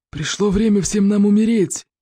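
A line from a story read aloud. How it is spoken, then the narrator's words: Roaring growl. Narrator (Russian): прорычал зеленый смерч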